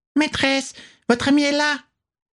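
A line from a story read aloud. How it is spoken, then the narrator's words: Squeaking. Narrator (French): couina-t-elle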